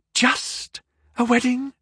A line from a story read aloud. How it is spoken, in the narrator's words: Penny gasped